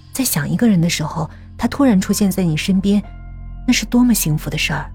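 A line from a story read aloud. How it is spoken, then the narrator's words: Soft. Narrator (Chinese): 江涛轻声说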